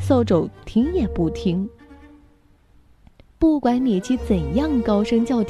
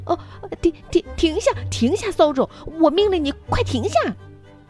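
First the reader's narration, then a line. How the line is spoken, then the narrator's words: Panicked hurried shout. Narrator (Chinese): 米奇慌了神，急忙喊道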